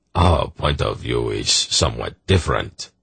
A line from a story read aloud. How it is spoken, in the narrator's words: Zakath murmured